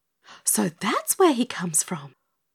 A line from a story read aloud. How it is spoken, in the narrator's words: breathed Dorothy, forgetting Bitty Bit's request for silence